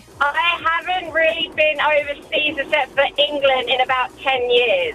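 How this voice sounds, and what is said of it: English accent. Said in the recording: “I can hear your English accent.”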